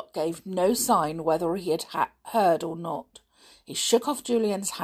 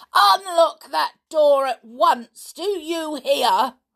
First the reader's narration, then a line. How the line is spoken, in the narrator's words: Julian yelled loudly in his ear